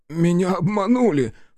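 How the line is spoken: Sobbing. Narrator (Russian): всхлипнул Даль

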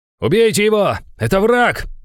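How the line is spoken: Shout. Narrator (Russian): выкрикнул командир

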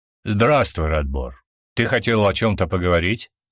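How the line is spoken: Calm question. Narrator (Russian): Император спросил спокойно, но мужчина даже так почувствовал власть этого человека

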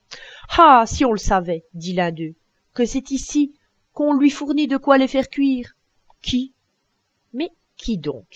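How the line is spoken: Exclaimed. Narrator (French): s'écria le cacheux

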